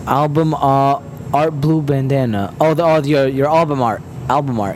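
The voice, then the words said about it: Heavy put-on accent. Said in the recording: “Why am I saying that with like a heavy ass accent?”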